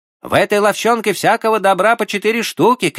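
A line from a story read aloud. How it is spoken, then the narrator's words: Shouted. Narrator (Russian): крикнул третий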